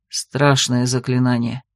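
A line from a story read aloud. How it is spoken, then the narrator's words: Sigh. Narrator (Russian): вздохнул Дерард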